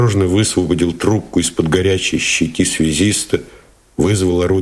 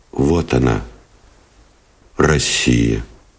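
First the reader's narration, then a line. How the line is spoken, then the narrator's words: Quiet and serious. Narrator (Russian): тихо и серьезно сказал Новиков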